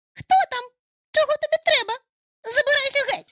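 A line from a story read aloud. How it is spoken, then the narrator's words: Angry shriek. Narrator (Ukrainian): Сердито заверещала вона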